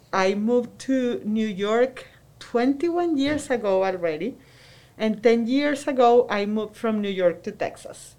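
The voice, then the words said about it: Venezuelan Spanish accent. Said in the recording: “I was born and raised in Venezuela. I'm sure you can tell by my accent”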